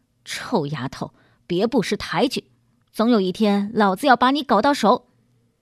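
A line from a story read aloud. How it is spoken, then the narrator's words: Snarling through teeth, offstage. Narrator (Chinese): 王东发在门外咬牙切齿地说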